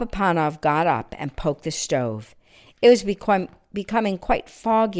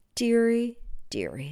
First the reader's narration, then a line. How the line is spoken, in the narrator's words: sighed Papa Panov